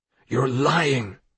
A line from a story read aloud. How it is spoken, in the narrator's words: Daniel hissed